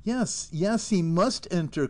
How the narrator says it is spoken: cried Arthur

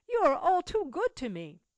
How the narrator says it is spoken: exclaimed Cecil, much affected

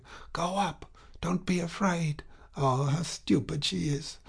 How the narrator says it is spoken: one could hear voices whispering

